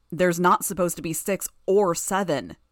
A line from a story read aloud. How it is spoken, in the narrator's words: Gru roared in his unearthly voice